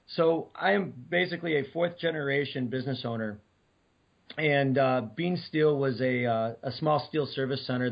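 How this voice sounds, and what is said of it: Hoarse, scratchy voice. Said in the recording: “I'm still hoarse from a cold, so I sound a little scratchy still”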